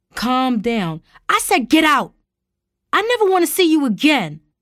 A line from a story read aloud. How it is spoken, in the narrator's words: Tara hollered